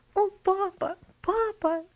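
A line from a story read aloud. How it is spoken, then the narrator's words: Sobbing. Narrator (Russian): всхлипывала она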